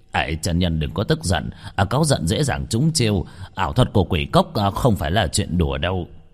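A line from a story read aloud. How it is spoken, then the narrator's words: Urgent, flustered urging. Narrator (Vietnamese): mấy người kia rối rít khuyên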